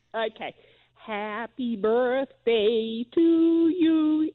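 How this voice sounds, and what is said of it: Put-on American accent, singing. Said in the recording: “I can sing happy birthday in an American accent.”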